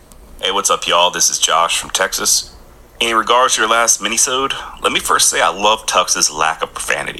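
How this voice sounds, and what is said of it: Strong Southern US accent. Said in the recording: “super Southern ... he had a Southern accent”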